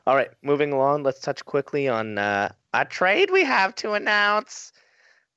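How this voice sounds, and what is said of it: Imitates another person's voice. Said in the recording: “My Gary Bettman impression.”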